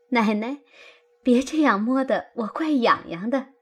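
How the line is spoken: Laughing. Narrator (Chinese): 平儿笑道

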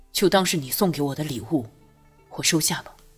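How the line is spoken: Soft, after silence. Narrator (Chinese): 默然片刻，轻声道

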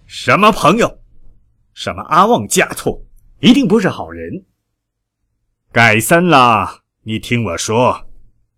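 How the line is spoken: Grieved angry roar. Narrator (Chinese): 他伤心，他恼怒，终于爆出了一声吼叫

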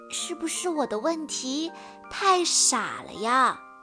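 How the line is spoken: Quiet voice. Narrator (Chinese): 菲儿小声地说

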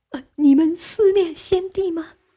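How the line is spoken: Crying question. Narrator (Chinese): 哭问

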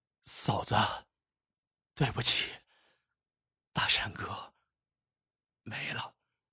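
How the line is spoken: Weak hoarse voice. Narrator (Chinese): 黑子虚弱不堪，他嘶哑着嗓子对王大山媳妇儿说

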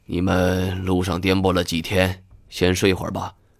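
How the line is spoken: Heavy sigh. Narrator (Chinese): 老板只是重重的叹了一口气

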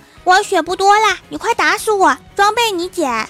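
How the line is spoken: Calling out. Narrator (Chinese): 郭晓霞就喊他同学说

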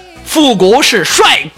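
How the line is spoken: Roaring. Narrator (Chinese): 我就对那螃蟹吼了一句

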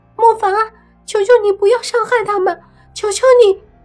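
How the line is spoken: Desperate pleading shout. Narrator (Chinese): 小莫 便对着头顶大喊

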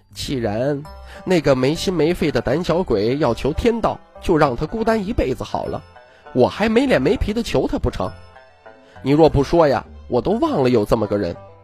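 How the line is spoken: Carefree laughing. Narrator (Chinese): 徐知虎洒然笑道

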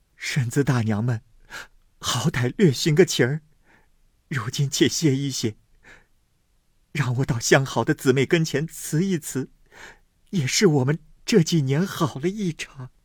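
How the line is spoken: Tearful pleading. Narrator (Chinese): 思琪因又哭告道

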